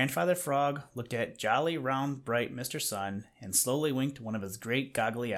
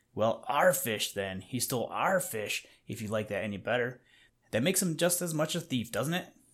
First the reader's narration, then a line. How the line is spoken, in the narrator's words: growled Little Joe